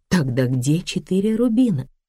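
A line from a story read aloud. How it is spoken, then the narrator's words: Plain. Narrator (Russian): спросила я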